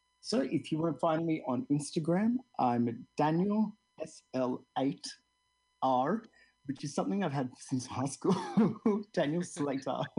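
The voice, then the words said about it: Speaks with a distinctive accent. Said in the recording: “I love your accent.”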